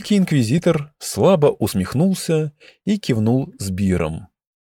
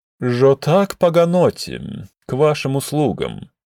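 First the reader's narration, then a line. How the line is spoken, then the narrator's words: Mocking. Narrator (Russian): насмешливо произнес Танзен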